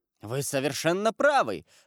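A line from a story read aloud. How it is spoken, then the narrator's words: Exclamation. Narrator (Russian): воскликнул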